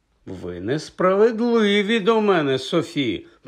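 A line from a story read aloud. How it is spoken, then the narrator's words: Offended. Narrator (Ukrainian): промовив Хаул ображеним голосом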